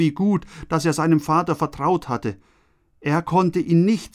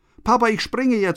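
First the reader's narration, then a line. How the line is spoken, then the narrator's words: Shouting. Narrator (German): schreit Benny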